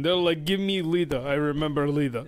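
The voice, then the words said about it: Put-on Russian accent. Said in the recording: “I have a Russian accent for people in Saudi Arabia.”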